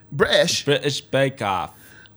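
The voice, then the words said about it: Put-on British accent. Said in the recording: “I've been working on my accents... you thought a British person was here?”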